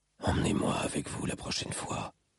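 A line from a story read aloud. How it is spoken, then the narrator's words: Whisper. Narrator (French): chuchota-t-il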